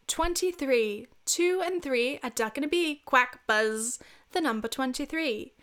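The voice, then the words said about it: Put-on English accent. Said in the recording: “let me try my best English accent.”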